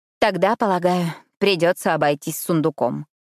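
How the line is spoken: Muttering. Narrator (Russian): пробормотала

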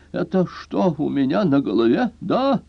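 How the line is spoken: Hoarse wheeze. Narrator (Russian): прохрипел

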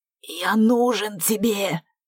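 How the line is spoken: Only wheezing rasps. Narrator (Russian): хотел сказать Стратилат, но изо рта вырывались лишь хрипы

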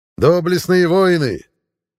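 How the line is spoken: Shouted. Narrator (Russian): прокричал Финист

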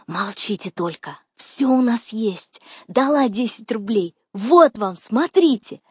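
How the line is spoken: Shrieking. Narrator (Russian): завизжала

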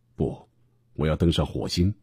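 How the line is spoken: Smiling. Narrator (Chinese): 马斯克笑眯眯地说

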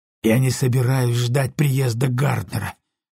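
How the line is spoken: Exhaled words. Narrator (Russian): выдохнул он

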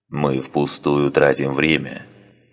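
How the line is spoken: Grumbling. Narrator (Russian): проворчал Санак

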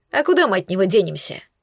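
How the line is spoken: Heavy sigh. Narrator (Russian): тяжело вздохнул Гор

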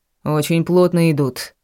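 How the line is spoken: Dry remark. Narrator (Russian): сухо высказался мужчина, которого называли Ник

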